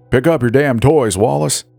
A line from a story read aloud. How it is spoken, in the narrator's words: he'd shout, swearing